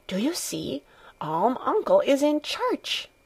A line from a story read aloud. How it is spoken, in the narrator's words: whispering